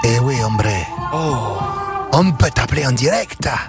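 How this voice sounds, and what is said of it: Put-on Mexican accent. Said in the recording (French): “pour que tu parles comme ça ... C'est l'accent mexicain de Seine-Maritime”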